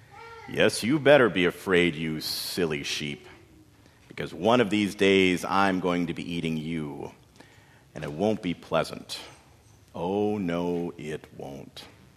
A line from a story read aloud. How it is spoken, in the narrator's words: he'd chuckle to himself